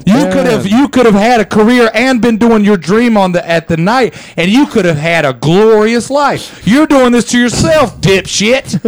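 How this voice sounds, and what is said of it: Yelling angry rant. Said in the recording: “Stop yelling at me.”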